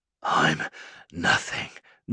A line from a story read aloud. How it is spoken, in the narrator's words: Noah wheezed, the rope falling away from his neck